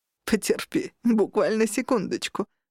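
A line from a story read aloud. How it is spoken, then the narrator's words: Man asking. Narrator (Russian): попросил мужчина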